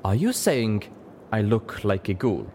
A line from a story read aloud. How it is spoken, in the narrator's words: In her exotic accent, she slowly asked Velvet